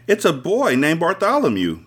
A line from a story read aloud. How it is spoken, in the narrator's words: Jolene shouted to Bill